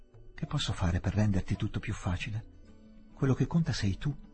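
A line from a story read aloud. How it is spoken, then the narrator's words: Sigh. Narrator (Italian): sospirò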